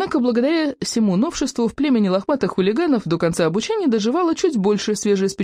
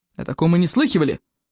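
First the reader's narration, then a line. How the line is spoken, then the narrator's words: Loud-voiced grumbling. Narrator (Russian): ворчал Плевака крикливый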